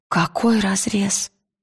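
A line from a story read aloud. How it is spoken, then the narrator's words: Frightened quiet boy. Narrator (Russian): испуганным тихим голосом спросил мальчик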